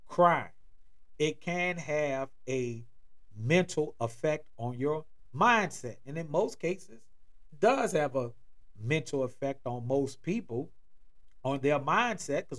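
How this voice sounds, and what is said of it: New Orleans accent. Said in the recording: “you may hear it in my accent. I'm originally from and born in New Orleans, Louisiana”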